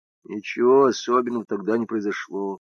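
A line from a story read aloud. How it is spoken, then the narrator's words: Quiet. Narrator (Russian): тихо сказал Лузгин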